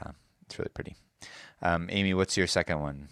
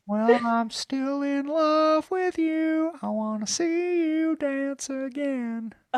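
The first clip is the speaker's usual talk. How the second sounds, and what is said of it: Sung impression in high head voice. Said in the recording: “It's like all head voice. ... my Neil Young impression ... he sings in his head voice.”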